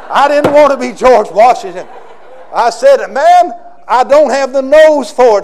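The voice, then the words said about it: Southern American accent. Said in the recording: “I've got a southern accent.”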